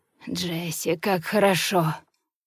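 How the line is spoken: Restrained hoarse rasp. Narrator (Russian): сдерживаясь, а затем хрипит

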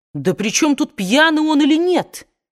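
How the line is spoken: Exclamation, captain. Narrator (Russian): воскликнул капитан

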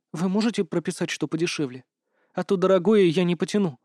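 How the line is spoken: Timid patient. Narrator (Russian): робко сказала пациентка

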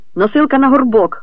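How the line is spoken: Shouted. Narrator (Ukrainian): крикнув

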